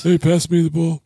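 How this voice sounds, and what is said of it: Poor impression of another person's voice. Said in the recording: “That was my baby shack. That's not good. It's not a good impersonation.”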